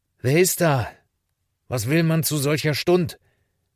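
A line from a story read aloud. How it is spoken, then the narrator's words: Pastor calling out. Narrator (German): rief der Pastor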